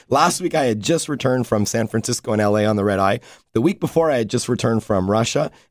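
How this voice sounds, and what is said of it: Raspy, worn-out voice. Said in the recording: “Why is my voice so raspy today? ... my voice is shot ... my voice is worse today than it was the last 3 weeks”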